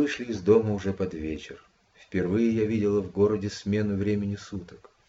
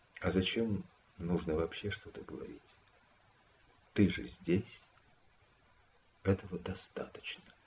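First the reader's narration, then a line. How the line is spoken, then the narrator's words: Calm. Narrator (Russian): спокойно сказал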